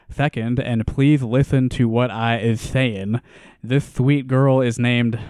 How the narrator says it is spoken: I'm going to cut off the lisp now

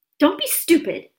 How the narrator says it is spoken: snapped Aunt Petunia

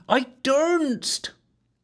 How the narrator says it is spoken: the wench pleaded

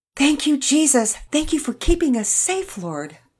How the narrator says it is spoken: Mama Peter shouted

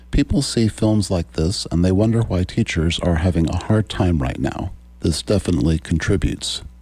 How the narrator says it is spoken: Jesperson said

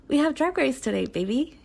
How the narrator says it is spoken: cheerfully tells

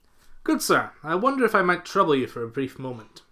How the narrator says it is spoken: asked Somerville

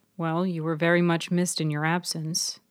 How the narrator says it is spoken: Tripp stated quietly

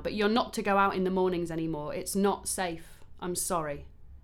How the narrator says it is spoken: Karen said firmly now

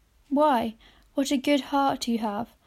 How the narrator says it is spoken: cried his wife

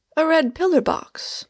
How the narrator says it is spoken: I cried in astonishment

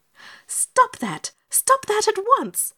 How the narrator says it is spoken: she cried, stamping her foot indignantly

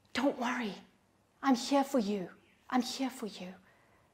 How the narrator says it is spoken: He's whispering

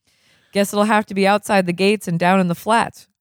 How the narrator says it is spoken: said Crocker

